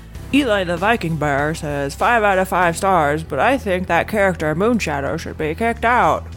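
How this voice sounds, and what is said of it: Imitated voice reading a review. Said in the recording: “This is me imitating, I don't know, someone else reading the reviews ... that did not sound like me at all”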